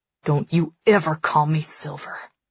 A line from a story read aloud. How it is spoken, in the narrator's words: Nix says through gritted teeth